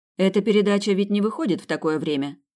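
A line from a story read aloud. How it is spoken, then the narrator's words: Plain. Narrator (Russian): спросила она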